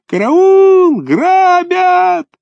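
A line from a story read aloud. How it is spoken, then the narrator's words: Thin piercing scream. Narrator (Russian): Вася Чесноков заерзал вдруг ногами по снегу и закричал тонким пронзительным голосом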